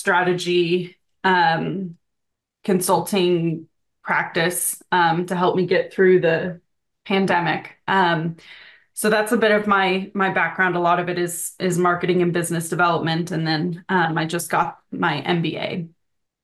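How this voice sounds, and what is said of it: North American accent. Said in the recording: “based on your accent, you're based in North America”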